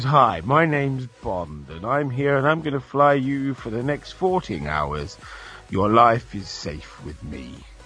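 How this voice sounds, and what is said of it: Put-on posh Queen's English accent. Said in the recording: “the Queen's English ... the proper English ... you pronunciate every single word correctly”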